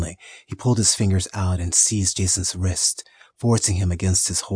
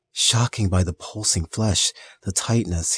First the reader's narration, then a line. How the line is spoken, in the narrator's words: he moaned